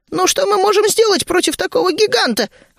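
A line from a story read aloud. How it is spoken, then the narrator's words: Exclamation. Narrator (Russian): воскликнул гремлин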